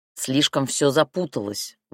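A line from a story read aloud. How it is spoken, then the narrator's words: Grumbling. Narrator (Russian): ворчал Шальнов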